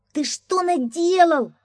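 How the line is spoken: Shouting scrawny crook. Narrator (Russian): закричал щуплый жулик

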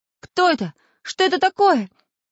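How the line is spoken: Sleepy confused shouting. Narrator (Russian): с просонок кричал Самоделкин

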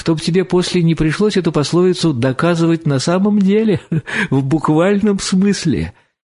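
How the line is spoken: Laughing reply. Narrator (Russian): отвечал, смеясь Корсаков

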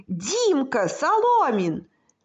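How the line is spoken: Distant shout. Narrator (Russian): закричал кто-то издалека

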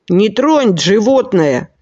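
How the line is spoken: Angry. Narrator (Russian): сердито сказал Джонни

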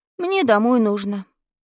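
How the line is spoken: Sad. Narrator (Russian): грустно сказал я

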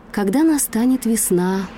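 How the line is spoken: Doe's sigh. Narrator (Russian): вздохнула олениха

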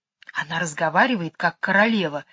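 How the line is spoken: Whisper. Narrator (Russian): шепнула Джейн

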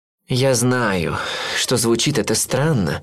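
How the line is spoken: Sighing. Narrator (Russian): вздохнул он

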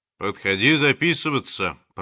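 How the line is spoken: Deep bass voice. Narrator (Russian): пробасил он

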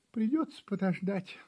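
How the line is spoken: Sighing kitten. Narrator (Russian): вздохнул котенок

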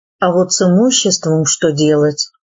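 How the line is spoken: Sighing hunchback. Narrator (Russian): горбун сказал, вздохнув

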